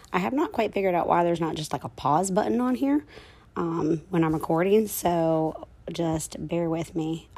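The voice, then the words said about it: Rough, messed-up voice. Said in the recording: “My voice is really messed up, so if I start coughing”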